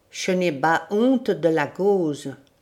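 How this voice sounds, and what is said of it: Fierce voice, strong foreign accent. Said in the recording (French): “d'un air farouche avec un fort accent étranger”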